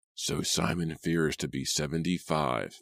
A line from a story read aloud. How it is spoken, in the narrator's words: McGuire muttered